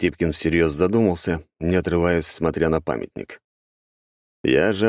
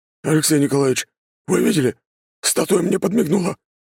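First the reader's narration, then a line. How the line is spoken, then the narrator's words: Suddenly tense voice. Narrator (Russian): внезапно напряженным голосом проговорил Григорий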